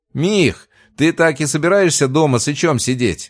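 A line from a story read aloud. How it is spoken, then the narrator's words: Shouted over phone. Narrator (Russian): прокричал мне в трубку Макс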